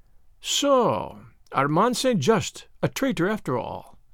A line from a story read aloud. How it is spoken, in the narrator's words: murmured